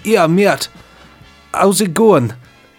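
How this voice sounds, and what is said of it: Weak attempt at Geordie accent. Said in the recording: “can you do a Geordie accent? ... That sounds like ... Jonathan Ross trying to do an accent. he always does accents really badly on purpose.”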